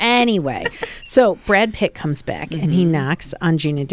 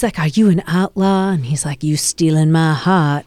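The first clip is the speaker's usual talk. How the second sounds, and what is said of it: Forrest Gump-style Southern voice. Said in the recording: “I don't know why I'm giving you Forrest Gump ... I kind of was kind of Forrest Gumpy.”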